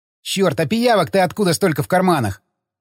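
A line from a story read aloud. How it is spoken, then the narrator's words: Snorting. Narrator (Russian): фыркнул Ходокири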